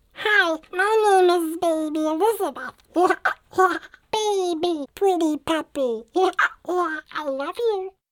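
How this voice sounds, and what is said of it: High-pitched baby voice. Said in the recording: “you can raise it up into a high voice like this ... you can use it for a baby voice”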